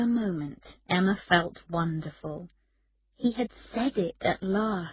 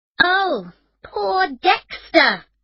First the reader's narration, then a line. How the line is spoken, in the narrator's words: Emma said angrily